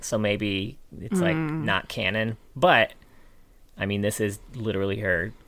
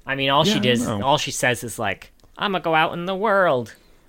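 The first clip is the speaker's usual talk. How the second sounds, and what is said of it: Imitates a character's voice. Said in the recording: “That was a great impression of Lilia.”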